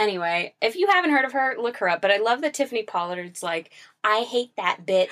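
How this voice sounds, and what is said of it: Usual voice. Nothing is said of it.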